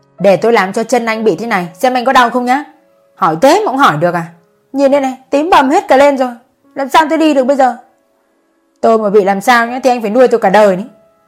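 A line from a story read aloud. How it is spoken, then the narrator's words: Sudden furious shout. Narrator (Vietnamese): Cô gái đang suýt xoa bỗng nhiên hét lên tức tối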